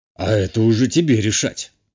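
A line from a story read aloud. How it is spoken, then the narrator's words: Wry snort. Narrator (Russian): хмыкнул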